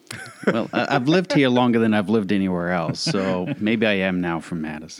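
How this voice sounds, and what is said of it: Peculiar non-local accent. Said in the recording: “that peculiar accent”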